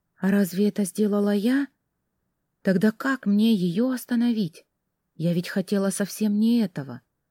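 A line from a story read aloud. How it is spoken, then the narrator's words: Whispered. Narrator (Russian): прошептала я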